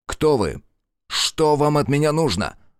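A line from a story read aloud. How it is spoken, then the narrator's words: Barking roar. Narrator (Russian): Рявкнул он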